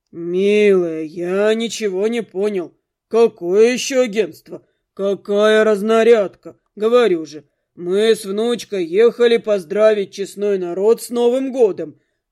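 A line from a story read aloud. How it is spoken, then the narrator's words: Old man's offended bass. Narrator (Russian): обиженно пробасил старик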